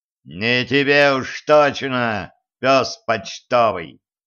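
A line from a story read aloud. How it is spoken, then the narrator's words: Gruff barking shout. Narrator (Russian): рявкнул Кощей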